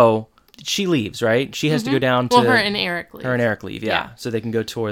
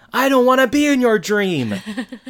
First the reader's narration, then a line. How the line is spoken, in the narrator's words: Eric and Sean at the same time yell